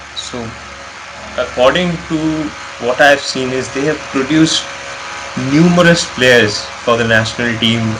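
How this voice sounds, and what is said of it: Indian English accent. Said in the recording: “I have an Indian accent”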